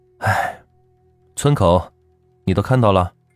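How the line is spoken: Sighing. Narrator (Chinese): 赵老铁叹了口气

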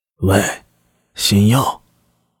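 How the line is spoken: Low chuckling voice. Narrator (Chinese): 新右卫门对他嘿的一笑，压低声音道

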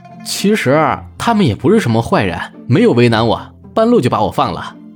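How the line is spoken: Laughing reply. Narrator (Chinese): 朱熹笑着答道

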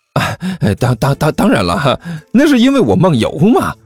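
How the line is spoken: Smiling question. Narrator (Chinese): 小师妹笑眯眯的接着又问

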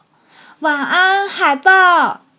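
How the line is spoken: Loud. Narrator (Chinese): 它大声说

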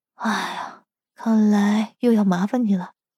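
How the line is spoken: Sighing. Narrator (Chinese): 声音人叹了口气

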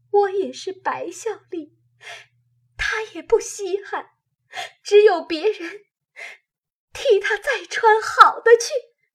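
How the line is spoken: Crying. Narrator (Chinese): 黛玉哭道

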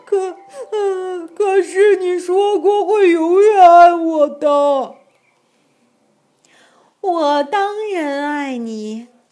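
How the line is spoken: Crying. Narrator (Chinese): 阿丽哭着说

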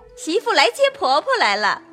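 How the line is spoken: Woman laughing. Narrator (Chinese): 凤姐笑道

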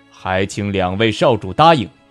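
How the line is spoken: Deep, low voice. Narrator (Chinese): 傲天君沈然一笑，沉声道

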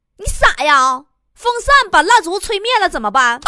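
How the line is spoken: Two voices shouting together. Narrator (Chinese): 呵呵和坨坨俩人几乎同时大声喊

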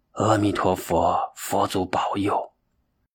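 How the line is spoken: Murmured prayer. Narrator (Chinese): 慧能喃喃的祈祷

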